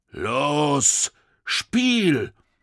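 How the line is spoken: Soldier calling out. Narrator (German): rief der größte der Soldaten

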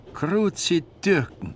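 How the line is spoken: Calling out. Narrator (German): rief der Mann

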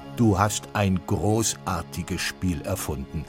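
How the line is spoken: Plain. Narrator (German): sagte Schiram

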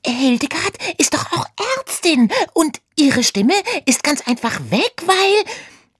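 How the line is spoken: Squeaking. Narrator (German): quiekte Oda

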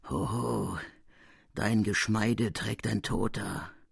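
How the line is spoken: Murmur in the ear. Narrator (German): eine Stimme raunte mir in die Ohren

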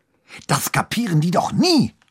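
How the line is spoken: Hissed angrily. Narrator (German): fauchte er wütend

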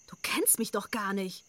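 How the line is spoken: Hissing. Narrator (German): zischte Simi

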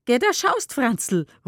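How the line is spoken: Called out. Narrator (German): ruft sie

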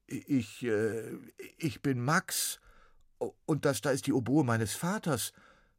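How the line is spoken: Stuttered. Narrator (German): stotterte Max

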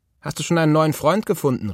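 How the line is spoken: Called. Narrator (German): rief sie

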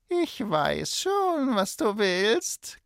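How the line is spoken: Terrible witch's croak. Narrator (German): krächzte die Hexe mit schrecklicher Stimme

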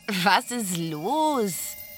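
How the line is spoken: Laughing. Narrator (German): lachte Blinky

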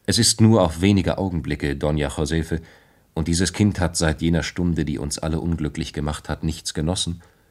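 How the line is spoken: Plain. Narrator (German): sagte sie

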